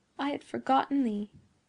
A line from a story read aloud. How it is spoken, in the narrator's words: murmured she